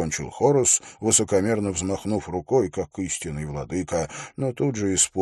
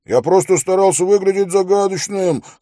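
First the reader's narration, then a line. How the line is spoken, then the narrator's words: Shout after someone. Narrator (Russian): крикнул ему вслед Хорос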